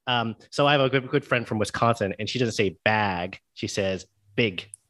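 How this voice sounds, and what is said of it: Neutral American newscaster accent. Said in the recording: “that's kind of the newscaster voice for most of most of the U.S. ... the very neutral American accent is the one that I speak with”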